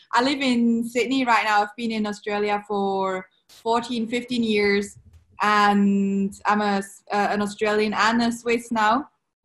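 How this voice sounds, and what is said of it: Swiss accent in English. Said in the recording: “I'm Swiss born... that's also why I have an accent.”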